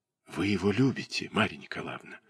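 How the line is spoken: Quiet, curious, kindly young man. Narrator (Russian): спросил он тихо, с любопытством и добродушием юноши, чувствующего уже волнение в груди даже при чужом признании в любви

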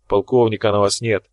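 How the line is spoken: Grumbled. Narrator (Russian): проворчал Тхар

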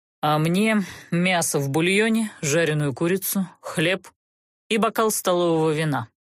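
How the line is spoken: Commanding order. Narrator (Russian): властно приказал сопровождающий

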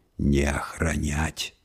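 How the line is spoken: Quiet monster growl. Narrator (Russian): тихонько рыкнул монстр, где-то у нее за спиной

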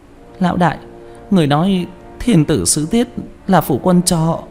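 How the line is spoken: Trembling. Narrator (Vietnamese): Quả Cam run rẩy

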